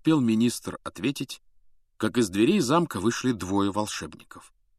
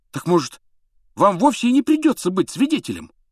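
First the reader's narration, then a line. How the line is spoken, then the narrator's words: Ardent exclamation. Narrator (Russian): с жаром воскликнул Рон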